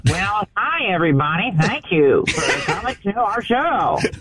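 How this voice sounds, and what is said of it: Louis Anderson impression. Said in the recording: “do a Louis Anderson impression? ... can you do a Louis Anderson? ... You sound more like Louis than me.”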